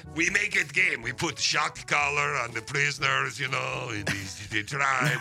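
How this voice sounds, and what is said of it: Put-on Russian accent. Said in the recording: “I sound a little Russian. ... why the accent.”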